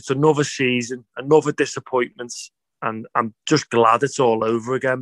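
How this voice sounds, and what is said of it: Tired, drained voice. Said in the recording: “I'm just so drained, as you can probably tell in my voice.”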